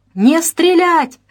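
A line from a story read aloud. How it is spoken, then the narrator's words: Father yelling at full strength. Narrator (Russian): что было мочи, завопил отец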